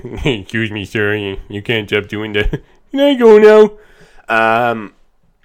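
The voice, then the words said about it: Poor Homer Simpson impression. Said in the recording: “my shit Homer impression”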